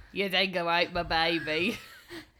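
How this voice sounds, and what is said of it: Weak attempt at Australian accent. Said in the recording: “I can't do an Australian accent to save my shit.”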